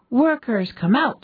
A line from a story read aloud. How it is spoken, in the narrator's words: she cried